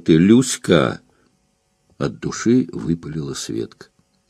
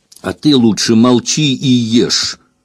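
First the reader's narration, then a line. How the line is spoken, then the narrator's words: Angry remark. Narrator (Russian): заметила ей сердито Светка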